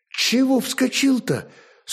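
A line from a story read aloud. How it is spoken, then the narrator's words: Wife, slightly flustered. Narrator (Russian): Слегка растерянно молвила жена, видимо, не ожидавшая увидеть лемеша в боевом облачении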